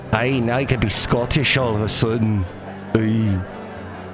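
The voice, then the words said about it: Put-on Scottish accent, Californian-tinged. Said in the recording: “That's my Scottish accent... That's my California Scottish accent”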